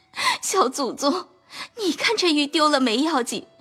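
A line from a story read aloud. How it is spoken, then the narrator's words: Anxious crying. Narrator (Chinese): 袭人等急得又哭道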